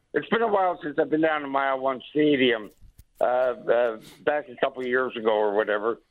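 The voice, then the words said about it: Hoarse, failing voice. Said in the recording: “My voice is going a bit here on me.”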